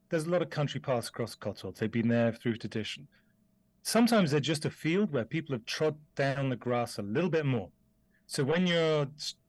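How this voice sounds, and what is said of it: British accent. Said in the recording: “I grew up in the UK, you can probably tell from my accent”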